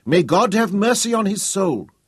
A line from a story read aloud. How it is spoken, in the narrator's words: cried out